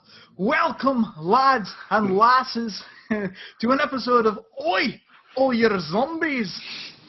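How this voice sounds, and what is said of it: Bad put-on Scottish accent. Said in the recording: “this horrible, godforsaken Scottish accent ... try to do a really bad Scottish accent”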